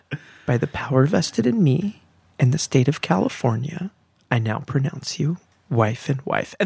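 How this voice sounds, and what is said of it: Solemn preacher-style officiant voice. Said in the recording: “can you talk in your preacher voice? ... has a stage voice.”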